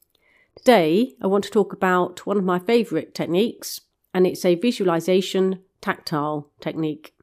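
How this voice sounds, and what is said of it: Croaky voice. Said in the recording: “I sound a bit croaky, just getting over a cold”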